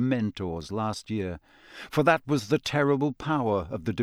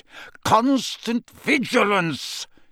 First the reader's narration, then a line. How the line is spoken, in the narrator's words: he roared